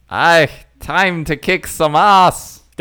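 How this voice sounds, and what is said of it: Shrek character impersonation. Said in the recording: “my Shrek impersonation”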